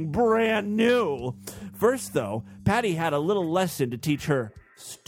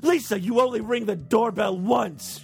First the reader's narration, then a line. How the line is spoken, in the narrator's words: she said in a controlled but angry voice